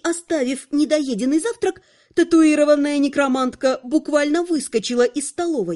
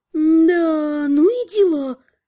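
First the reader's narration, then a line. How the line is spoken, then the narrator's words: Drawn-out drawl. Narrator (Russian): протянула она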